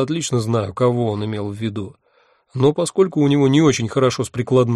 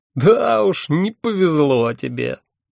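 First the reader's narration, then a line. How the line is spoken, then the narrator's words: Hearty laughter. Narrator (Russian): От души расхохотался мой собеседник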